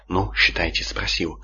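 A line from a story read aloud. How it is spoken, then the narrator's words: Sighed. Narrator (Russian): вздохнул Сварок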